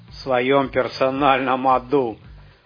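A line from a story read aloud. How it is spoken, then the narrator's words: Laughing. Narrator (Russian): хохотнул он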